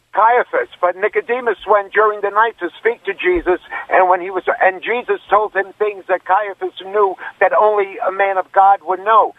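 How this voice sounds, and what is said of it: New York accent. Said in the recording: “You're originally from New York. I can hear it in your accent.”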